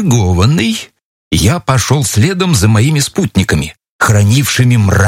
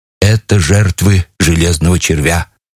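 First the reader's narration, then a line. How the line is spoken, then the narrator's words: Officer's hollow, muffled voice. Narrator (Russian): сказал глухим голосом артиллерийский офицер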